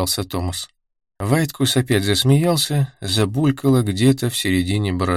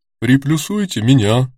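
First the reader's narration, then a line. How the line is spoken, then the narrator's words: Deep bass voice. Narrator (Russian): произнесла басом Луиза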